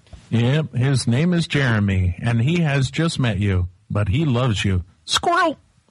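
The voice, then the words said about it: Imitates another person's voice. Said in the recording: “That's my impression of you writing a book.”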